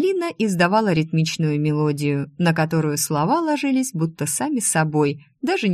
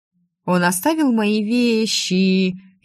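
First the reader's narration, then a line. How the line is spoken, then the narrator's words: Drawn-out sing-song. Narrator (Russian): слегка протянула гласные, будто напевая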